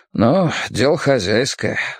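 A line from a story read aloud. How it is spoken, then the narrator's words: Man's sigh. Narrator (Russian): вздохнул мужчина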